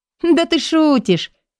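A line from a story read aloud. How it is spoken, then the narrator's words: Giggling, incredulous girl. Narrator (Russian): хихикает девушка, не веря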